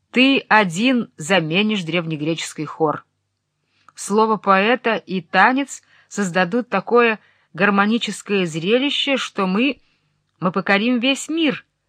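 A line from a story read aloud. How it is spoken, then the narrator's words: Laughing. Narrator (Russian): рассмеялась Айседора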